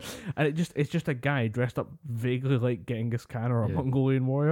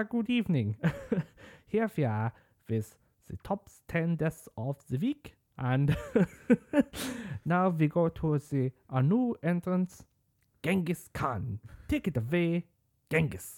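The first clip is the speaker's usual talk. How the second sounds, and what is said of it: Bad Austrian accent, John Cleese impression. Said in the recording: “John Cleese doing a weirdly like bad Austrian accent”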